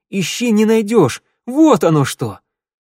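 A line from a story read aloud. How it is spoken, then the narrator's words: Joyful cursing. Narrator (Russian): радостно чертыхнулся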